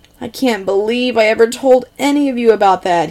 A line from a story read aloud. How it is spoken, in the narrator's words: he whines, sounding tragically upset with himself